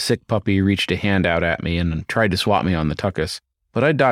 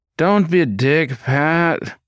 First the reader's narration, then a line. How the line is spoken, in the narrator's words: whined